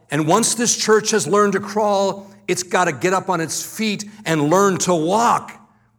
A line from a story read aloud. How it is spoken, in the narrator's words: he would yell